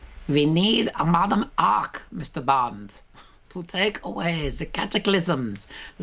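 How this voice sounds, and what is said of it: Villain voice, slight German accent. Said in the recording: “There's nothing like a slightly Germany, I don't know what accent that is.”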